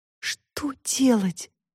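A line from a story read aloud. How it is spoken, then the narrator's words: Desperate whisper. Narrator (Russian): в отчаянии прошептала Таська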